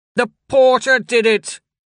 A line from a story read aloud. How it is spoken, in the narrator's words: She yelled